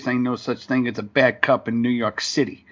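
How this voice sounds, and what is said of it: Heavy New York accent. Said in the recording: “in heavy New York accent”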